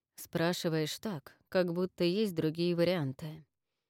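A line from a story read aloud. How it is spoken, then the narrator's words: Plain. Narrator (Russian): сказал Марс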